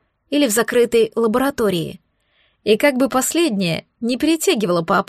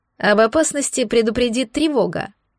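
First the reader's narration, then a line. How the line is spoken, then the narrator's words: Young man's snort. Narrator (Russian): хмыкнул паренек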